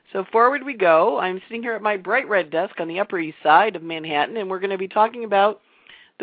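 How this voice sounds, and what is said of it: Slightly husky, not fully recovered voice. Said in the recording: “my voice is almost 100% back, not quite. It still sounds a little bit like a porn star, but it's way, way better than it was, and the cough is almost gone”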